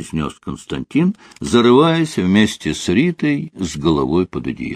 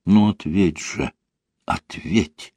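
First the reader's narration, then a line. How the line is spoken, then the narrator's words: Whispered like incantation. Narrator (Russian): шептала она, как заклинание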